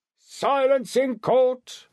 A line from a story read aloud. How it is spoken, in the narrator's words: bellowed an usher